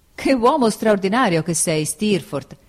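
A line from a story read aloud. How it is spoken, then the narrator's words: Exclaimed. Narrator (Italian): esclamai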